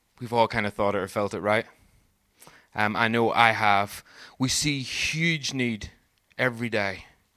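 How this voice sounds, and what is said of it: Strong regional accent, 'poor' like 'purr'. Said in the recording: “That last word was poor for those of you who can't understand my accent. Henceforth, I will just say purr. That's how it should be said.”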